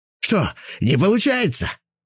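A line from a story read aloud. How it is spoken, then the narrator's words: Laughing old man. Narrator (Russian): засмеялся дед Радим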